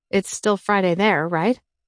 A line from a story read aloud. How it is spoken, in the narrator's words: Fisher chuckled